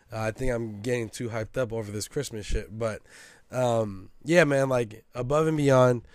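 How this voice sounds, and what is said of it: Hoarse, strained voice. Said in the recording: “My voice is starting to, I'm starting to lose my voice.”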